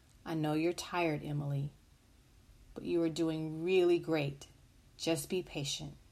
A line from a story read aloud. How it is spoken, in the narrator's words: the mother quietly said